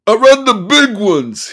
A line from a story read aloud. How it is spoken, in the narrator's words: he shouted suddenly